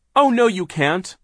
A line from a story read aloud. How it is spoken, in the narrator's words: Klaus cried